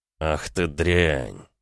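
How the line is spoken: Hissed. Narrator (Russian): прошипел Ромка

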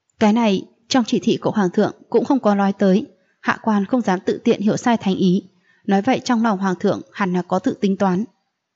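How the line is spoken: After a loud laugh. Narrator (Vietnamese): Cười to một cái, Liễu Tùng Vân nói

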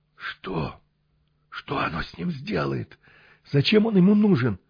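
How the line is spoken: Hoarse voice. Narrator (Russian): охрипший голос

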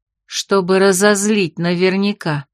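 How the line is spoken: Calm confirmation. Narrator (Russian): спокойно подтвердила Фанни

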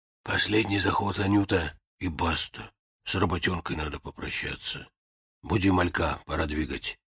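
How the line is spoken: Hoarse rasp. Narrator (Russian): Василич прохрипел

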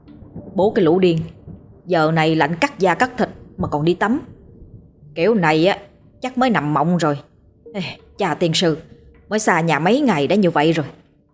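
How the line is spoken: Muttering. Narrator (Vietnamese): Nghe thấy vậy thì mình lẩm bẩm

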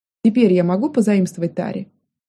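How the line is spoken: Snide request, elf woman. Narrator (Russian): ехидно попросила эльф

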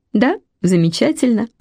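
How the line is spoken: Repeating, then laughing. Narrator (Russian): повторила я и засмеялась

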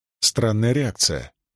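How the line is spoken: Muttering. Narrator (Russian): пробормотала Рисн

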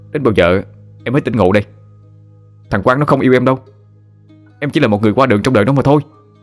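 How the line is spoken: Near shouting. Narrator (Vietnamese): Tú nhìn vào đối phương mà nói như hét vào mặt

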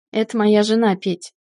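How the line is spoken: Snorting chuckle. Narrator (Russian): Хмыкнул Артем

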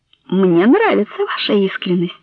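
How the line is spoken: Soft, tender reply. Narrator (Russian): мягко ответила ему Соня, почувствовав неожиданный прилив нежности к этому толстому нелепому человеку

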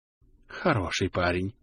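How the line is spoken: Breathless exclamation. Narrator (Russian): выдохнул император

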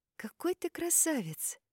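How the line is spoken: Quiet but firm. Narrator (Russian): Тихо, но твердо сказала

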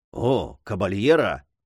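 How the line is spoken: Whispered in ear. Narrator (Russian): шепнул мажордом на ухо

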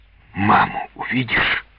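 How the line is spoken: Whisper. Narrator (Russian): прошептал отец

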